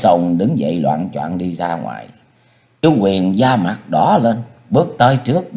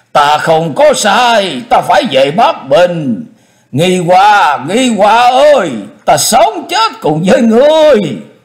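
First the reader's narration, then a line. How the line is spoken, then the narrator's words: Loud struggling clamor. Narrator (Vietnamese): Chu Lệ giãy giụa lớn tiếng ồn ào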